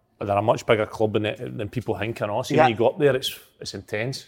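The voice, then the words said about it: Scottish Aberdeen accent. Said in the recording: “Geez, the accent ... Geez, the accent ... 2 years Aberdeen accent”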